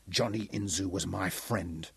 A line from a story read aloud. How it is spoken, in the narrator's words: he told Gomo softly